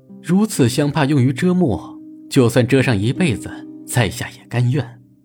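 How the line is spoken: Smiling. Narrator (Chinese): 令狐无忧笑着说道

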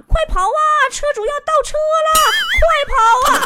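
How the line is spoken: Shouting. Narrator (Chinese): 一下车就搁那喊

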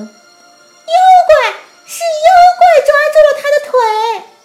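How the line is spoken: Unknown voice shouting. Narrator (Chinese): 不知是谁喊了一声

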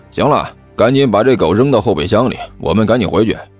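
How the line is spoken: Laughing. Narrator (Chinese): 另外一个人笑道

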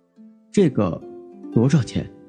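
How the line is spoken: Low, dazed, hesitant question. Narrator (Chinese): 哥哥……眼中有微微的恍惚和茫然，良久才沉声问道

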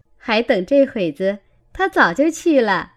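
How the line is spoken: Laughing. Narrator (Chinese): 琥珀笑道

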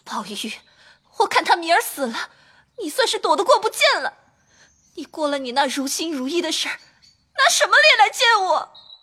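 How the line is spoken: Crying. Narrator (Chinese): 一面哭

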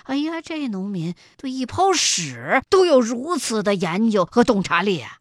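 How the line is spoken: Inner admiring exclamation. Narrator (Chinese): 心下却不由得赞叹

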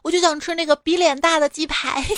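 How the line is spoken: Shouting. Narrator (Chinese): 刚一进门喊了一句

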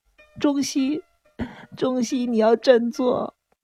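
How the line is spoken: Shrill scream. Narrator (Chinese): 风千代子看到这一幕，尖声叫道

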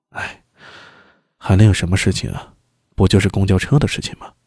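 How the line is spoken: Sighing, soft. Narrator (Chinese): 周良叹了一口气，轻声说道

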